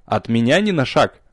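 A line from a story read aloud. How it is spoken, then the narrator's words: Stern warning. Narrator (Russian): строго предупредил я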